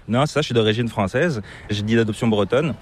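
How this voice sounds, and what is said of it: Slight accent, not Québécois. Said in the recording (French): “tu as une petite pointe d'accent qui est assez difficile de deviner ... c'est pas l'accent québécois”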